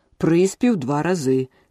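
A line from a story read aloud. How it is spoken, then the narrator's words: Shouted. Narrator (Ukrainian): крикнув грифон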